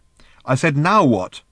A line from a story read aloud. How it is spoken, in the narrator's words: repeated Ford irritably